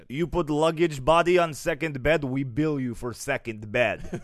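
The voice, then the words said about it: Put-on Russian accent. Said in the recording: “It sounds scarier when you do it in that accent. ... I know, it's that Russian accent.”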